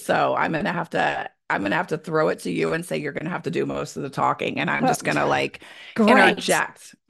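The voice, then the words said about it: Sick, ill-sounding voice. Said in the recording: “So you sound a little sick. ... It's beyond a little sick. It's really sick.”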